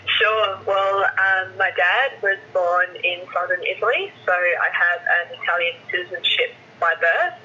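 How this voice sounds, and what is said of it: Australian accent. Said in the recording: “they've heard a perfect Aussie accent”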